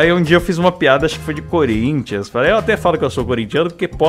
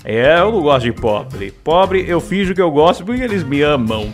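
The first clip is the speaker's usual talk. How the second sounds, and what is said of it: Imitates another person's voice. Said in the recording (Portuguese): “eu fazia imitação de Silvio, eu fazia uma, um Silvio meio megalomaníaco”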